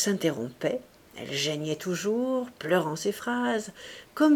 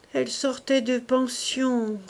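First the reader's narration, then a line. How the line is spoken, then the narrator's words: Broker, plaintive voice. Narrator (French): reprit la courtière d'une voix dolente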